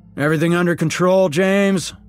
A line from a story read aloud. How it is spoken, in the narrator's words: the boss called out